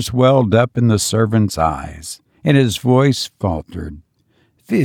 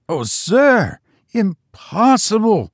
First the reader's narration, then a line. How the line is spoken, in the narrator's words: cried Biggs in horror